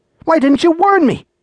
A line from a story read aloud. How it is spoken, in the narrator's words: cried